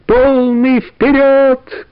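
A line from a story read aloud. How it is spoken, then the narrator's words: Shouted. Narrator (Russian): крикнул бравый капитан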